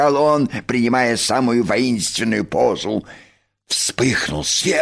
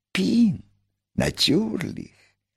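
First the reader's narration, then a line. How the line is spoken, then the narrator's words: Whisper. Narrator (Russian): прошептал великий механик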